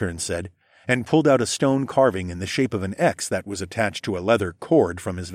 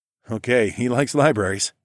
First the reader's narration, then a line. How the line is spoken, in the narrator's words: shrugged